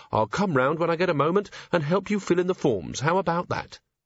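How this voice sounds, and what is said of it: Kindly character voice. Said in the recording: “said Carrot in a kindly voice.”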